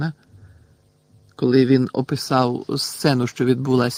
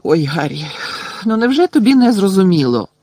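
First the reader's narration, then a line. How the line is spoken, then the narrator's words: Desperate exclamation. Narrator (Ukrainian): розпачливо вигукнула Герміона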